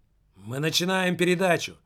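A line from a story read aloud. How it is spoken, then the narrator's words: Shouting. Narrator (Russian): прокричал Пенза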